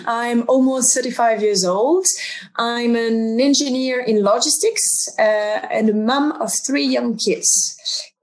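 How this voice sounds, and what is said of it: French accent in English. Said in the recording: “I'm French, as you can tell by the accent.”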